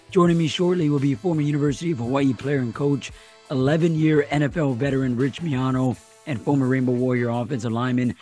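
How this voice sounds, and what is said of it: Hoarse, partly lost voice. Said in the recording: “apologize for the voice that I have this week ... Lost my voice”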